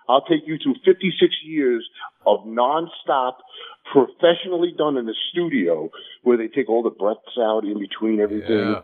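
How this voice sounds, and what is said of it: Brooklyn accent. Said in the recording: “my Brooklyn upbringing ... because your accent”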